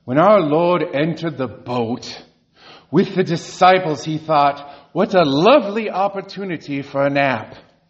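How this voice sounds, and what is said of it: Poorly imitated accent of a teacher. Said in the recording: “I will just wreck this with my accent”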